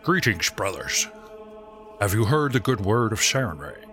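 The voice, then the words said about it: Character voice with distinct accent. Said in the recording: “with a distinct accent”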